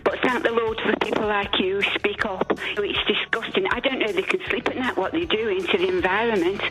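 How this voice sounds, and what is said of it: Italian accent. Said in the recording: “Don't go by my accent. I've been here 50 years, so I'm working on that bit ... that Italian accent will go away in time.”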